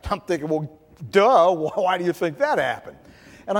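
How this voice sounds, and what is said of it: Usual voice. Nothing is said of it.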